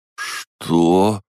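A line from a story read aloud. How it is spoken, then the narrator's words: Forced out. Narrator (Russian): наконец выдавил он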